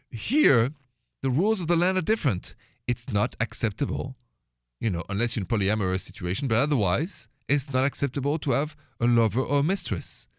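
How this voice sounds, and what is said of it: French accent. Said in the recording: “I have a French accent”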